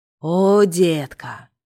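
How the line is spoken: Groaning young man. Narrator (Russian): застонал парень

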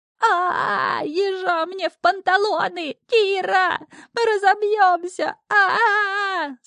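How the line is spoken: Creature shrieking in terror. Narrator (Russian): завизжал шнырь с ужасом

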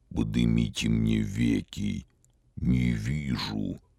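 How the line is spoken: Deep subterranean voice. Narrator (Russian): сказал подземным голосом Вий

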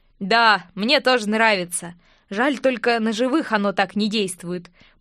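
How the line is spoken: Knowing snort. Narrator (Russian): понятливо хмыкнул Винсент

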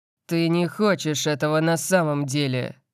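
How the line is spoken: Growl. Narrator (Russian): прорычал Лайонелл

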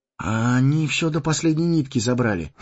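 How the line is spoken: Sighing. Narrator (Russian): вздохнул Фродо

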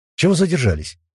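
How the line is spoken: Angry question. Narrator (Russian): сердито спросил Локис

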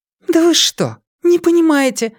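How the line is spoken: Exclaiming again. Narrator (Russian): опять воскликнула Вера

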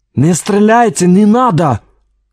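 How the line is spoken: Shouted with heavy accent. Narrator (Russian): крикнул он на русском языке с сильным акцентом

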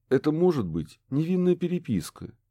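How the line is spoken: Hesitant suggestion. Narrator (Russian): неуверенно предположил Курт

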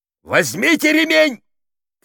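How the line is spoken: Shouting. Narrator (Russian): крикнул Токарь

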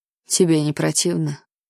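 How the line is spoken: Muffled question. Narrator (Russian): глухо спросил Ной

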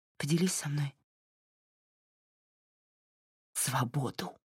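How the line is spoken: Forced out through sobs. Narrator (Russian): Всхлипнув, выдавила та

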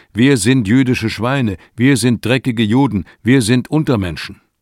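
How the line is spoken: Forced shouting. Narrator (German): befehlen die Soldaten ihnen zu brüllen

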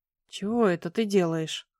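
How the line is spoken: Mumbling. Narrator (Russian): промямлил он

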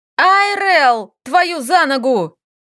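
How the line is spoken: Shouted again. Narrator (Russian): Снова прокричала Лиля

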